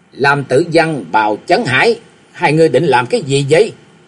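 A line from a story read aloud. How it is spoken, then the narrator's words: Shout. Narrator (Vietnamese): tiếng quát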